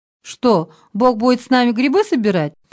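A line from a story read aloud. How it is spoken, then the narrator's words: Joking. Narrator (Russian): пошутил Витя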